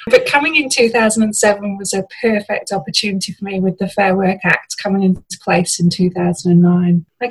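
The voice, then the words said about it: British accent. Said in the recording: “you can probably tell by the accent, I'm from the UK”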